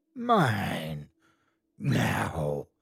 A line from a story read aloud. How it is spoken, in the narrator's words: A voice rasped in my ear